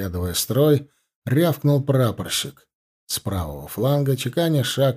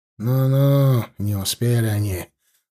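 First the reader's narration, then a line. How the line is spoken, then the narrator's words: Grumbling, softening tone. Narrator (Russian): нахмурившись, но уже более милостивым тоном пробурчал взводный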